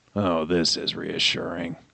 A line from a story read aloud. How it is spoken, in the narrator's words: John muttered